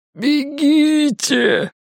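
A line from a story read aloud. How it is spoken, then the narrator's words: Groaning. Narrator (Russian): простонал он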